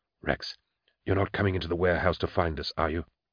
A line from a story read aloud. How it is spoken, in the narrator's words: whispered